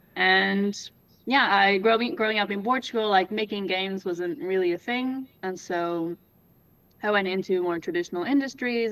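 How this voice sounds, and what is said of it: Canadian accent. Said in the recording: “I have a Canadian accent”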